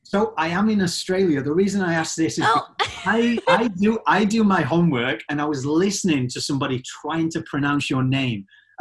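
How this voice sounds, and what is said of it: Strong Northern English Yorkshire accent. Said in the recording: “people from Yorkshire, where I'm from ... such a strong accent ... your accent, yes, I do know people from Northern UK”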